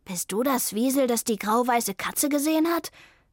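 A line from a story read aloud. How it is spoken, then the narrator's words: Excited question. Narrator (German): fragte Vivaldi aufgeregt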